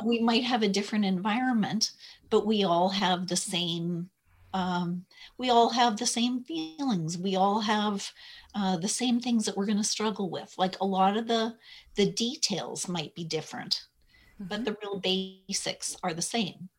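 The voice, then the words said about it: Canadian accent. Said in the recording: “your Canadian accent”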